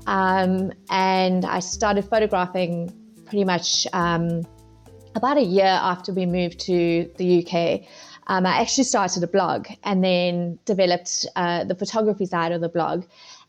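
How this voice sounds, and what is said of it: South African accent. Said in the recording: “As you can tell from my accent, I am originally from South Africa.”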